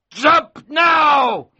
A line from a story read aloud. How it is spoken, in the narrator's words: He shouted suddenly